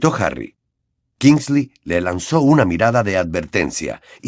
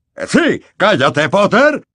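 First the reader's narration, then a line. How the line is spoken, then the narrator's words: Roared. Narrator (Spanish): rugió Fudge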